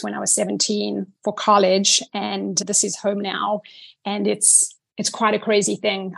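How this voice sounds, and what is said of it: Blended South African American accent. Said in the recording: “a blended South African American with a little touch of Southern in it ... I love your accent.”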